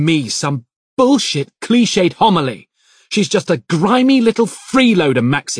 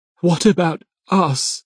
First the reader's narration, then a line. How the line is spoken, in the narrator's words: She asks, her voice wavering